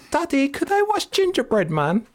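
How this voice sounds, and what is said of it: Imitated posh British child accent. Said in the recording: “she's got like a posh British accent, man. A very posh British accent.”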